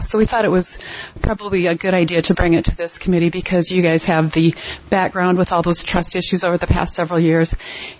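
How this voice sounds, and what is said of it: Slightly out of breath. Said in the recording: “I ran in from my car, so I'm a little bit out of breath.”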